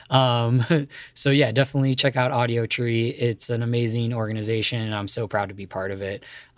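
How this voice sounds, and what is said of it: Hoarse, failing voice. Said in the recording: “sorry for my voice, I'm losing it”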